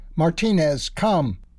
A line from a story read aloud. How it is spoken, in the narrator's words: said loudly